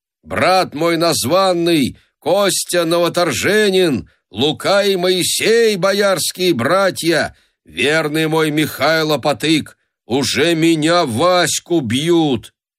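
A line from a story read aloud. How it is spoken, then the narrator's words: Loud shout. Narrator (Russian): Василий закричал громким голосом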